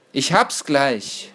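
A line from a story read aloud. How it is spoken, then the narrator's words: Called out. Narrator (German): rief er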